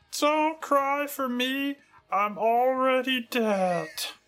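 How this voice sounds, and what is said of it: Good Barney Gumble impression. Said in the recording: “that is a good Barney impression”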